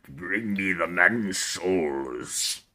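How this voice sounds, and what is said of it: Menacing villain character voice. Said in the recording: “he also has this menacing voice ... Can you do an impersonation?”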